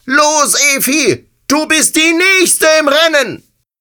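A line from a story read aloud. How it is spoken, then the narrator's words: Calling out. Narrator (German): Ich rief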